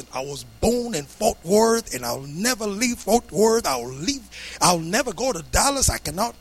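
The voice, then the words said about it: Old man with Texas accent. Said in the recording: “An old guy. He said, I was born in Fort Worth, you know, with a Texas accent.”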